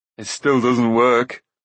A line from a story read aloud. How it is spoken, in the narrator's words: Dolly growled